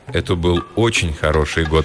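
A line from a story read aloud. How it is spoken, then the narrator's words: Plain. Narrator (Russian): сказал он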